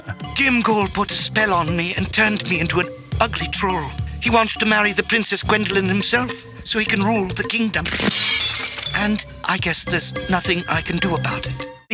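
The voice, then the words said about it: Posh British accent. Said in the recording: “this like posh Brit, well, you know, kind of British accent”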